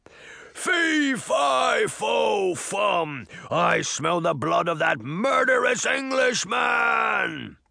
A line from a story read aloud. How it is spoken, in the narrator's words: The giant bellowed at Jack